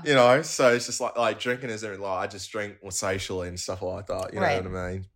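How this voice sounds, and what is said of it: Australian accent. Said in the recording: “your Australian accent ... Love the accent”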